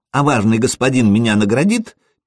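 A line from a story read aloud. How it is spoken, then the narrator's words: Squeaky child's voice. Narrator (Russian): пискнул малец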